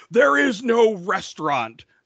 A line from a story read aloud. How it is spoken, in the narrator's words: Sean dramatically yells